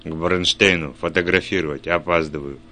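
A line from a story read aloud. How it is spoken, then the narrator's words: Muttered while walking. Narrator (Russian): пробормотал, не замедляя шага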